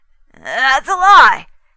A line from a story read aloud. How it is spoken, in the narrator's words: he said, his voice getting shrill